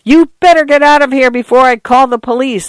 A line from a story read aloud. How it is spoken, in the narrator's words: Arthur yelled